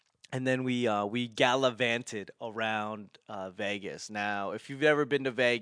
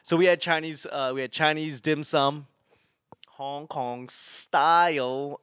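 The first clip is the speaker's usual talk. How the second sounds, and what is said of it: Bad put-on accent. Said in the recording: “Wow, that was a bad accent”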